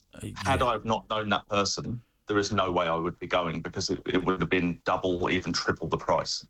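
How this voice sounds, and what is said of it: English accent. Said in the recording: “you probably guessed my accent. I was born in England”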